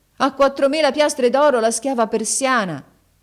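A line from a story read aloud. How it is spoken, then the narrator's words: Loud shout. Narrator (Italian): Haji Hassan gridò ad alta voce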